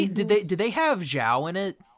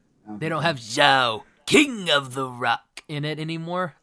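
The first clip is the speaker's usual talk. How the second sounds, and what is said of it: Throat-straining impression of a character. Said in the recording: “Oh, that hurt my throat. ... That was a good impression.”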